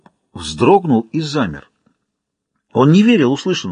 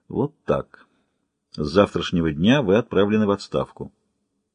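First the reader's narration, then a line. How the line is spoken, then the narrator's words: Quiet reply. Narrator (Russian): Шеф тихо ответил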